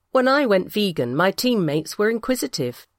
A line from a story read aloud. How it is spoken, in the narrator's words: says Jen